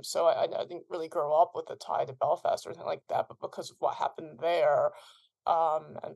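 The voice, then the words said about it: American accent. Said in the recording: “as you can hear from my voice, I'm American”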